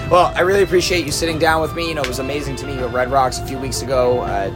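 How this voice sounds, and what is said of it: Worn, strained voice. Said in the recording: “I apologize in advance for my voice on this... I've been singing a lot... Your voice is unacceptable.”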